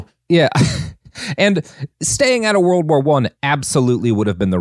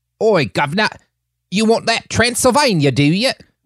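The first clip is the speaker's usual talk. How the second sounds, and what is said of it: Put-on English accent. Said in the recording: “That's English. ... I'm doing an English accent”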